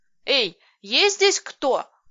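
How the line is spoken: Shouted. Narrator (Russian): крикнула я

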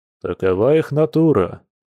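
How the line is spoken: Sighing werewolf. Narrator (Russian): вздохнул оборотень

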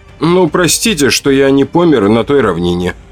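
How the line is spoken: Snide remark. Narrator (Russian): ехидно заметил я

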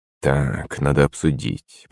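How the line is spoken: Muttering to himself. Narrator (Russian): пробормотал Орлов себе под нос

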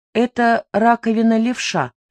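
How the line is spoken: Calm. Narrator (Russian): сказал он спокойно

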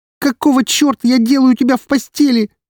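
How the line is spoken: Shouting. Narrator (Russian): Вместо этого закричала она

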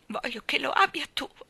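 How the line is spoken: Sobbing. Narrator (Italian): singhiozzò

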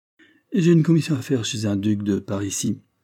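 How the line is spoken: Indifferent tone. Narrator (French): fit-il d'un ton indifférent

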